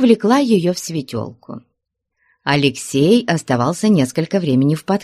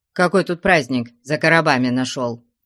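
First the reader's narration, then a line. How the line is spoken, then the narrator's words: Stern. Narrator (Russian): строго сказал ему Алексей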